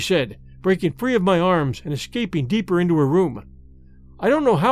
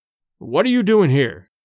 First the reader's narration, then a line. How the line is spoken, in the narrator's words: asked